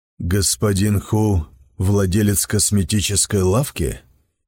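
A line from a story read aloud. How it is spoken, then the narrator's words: Plain. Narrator (Russian): спросил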